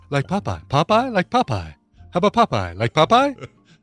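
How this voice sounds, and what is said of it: Imitates another person's voice. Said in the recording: “my Danny Glover impersonation ... That's a terrible Danny Glover.”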